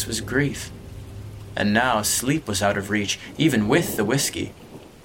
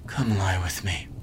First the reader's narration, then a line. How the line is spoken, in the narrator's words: muttered